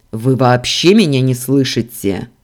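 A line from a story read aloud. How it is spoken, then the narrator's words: Barked. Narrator (Russian): рявкнул Дамиан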